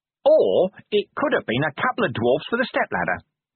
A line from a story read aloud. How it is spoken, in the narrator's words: Nobby went on cheerfully